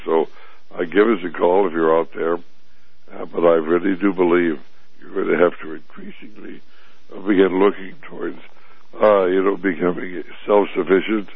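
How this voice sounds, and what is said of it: Weak, strained voice. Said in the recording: “my voice is not doing very well, and my cold isn't doing very well either”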